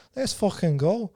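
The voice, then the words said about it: Imitated Scouse accent. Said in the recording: “like he'd usually say, in his classic Scouse accent.”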